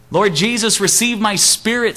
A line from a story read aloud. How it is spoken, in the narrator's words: Stephen cried